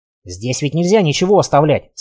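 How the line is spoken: Plain. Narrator (Russian): сказал Славик

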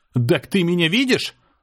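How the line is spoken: Yelled. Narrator (Russian): заорал я

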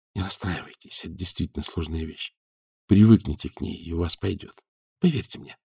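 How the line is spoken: Whisper. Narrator (Russian): Данилов шепнул ему

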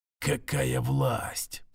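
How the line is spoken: Whispered to himself. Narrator (Russian): прошептал он себе

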